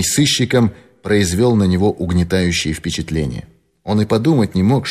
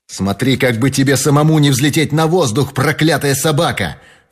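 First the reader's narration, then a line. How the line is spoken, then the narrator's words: Furious shout. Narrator (Russian): в бешенстве закричал Фрэнк Мерфи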